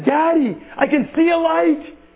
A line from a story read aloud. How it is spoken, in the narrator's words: the little girl cried out, she says